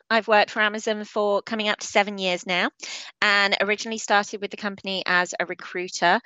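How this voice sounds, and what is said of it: English accent. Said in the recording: “as you can probably hear, I have an English accent”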